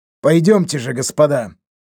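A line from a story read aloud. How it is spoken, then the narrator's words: Cool, calm. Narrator (Russian): предложил он хладнокровно звучавшим голосом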